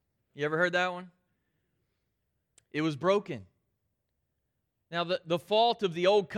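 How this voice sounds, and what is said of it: Usual voice. Nothing is said of it.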